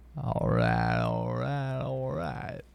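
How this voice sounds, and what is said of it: Matthew McConaughey impression. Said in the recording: “doing an impersonation of Matthew McConaughey”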